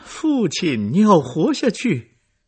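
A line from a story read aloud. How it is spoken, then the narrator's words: Miserable cry. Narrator (Chinese): 可塞特凄惨的叫着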